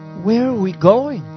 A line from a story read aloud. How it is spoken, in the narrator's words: in a very, very sweet voice